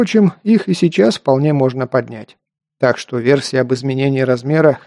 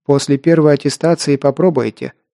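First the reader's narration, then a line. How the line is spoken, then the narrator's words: Dry, curt statement. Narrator (Russian): сухо сообщила Вуд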